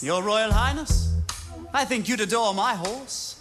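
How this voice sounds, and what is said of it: Put-on British accent, not convincing. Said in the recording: “I think I do a better British accent than she does.”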